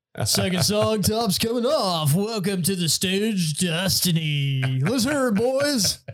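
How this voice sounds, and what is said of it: Strip club DJ announcer voice. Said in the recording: “slipping into my DJ voice”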